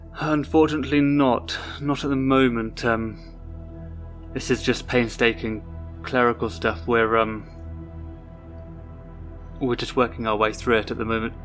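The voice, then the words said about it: Put-on received pronunciation English accent. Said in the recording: “my accent's gone completely changed ... I was talking with that received pronunciation”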